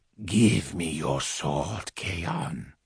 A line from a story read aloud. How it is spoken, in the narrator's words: he breathed into my face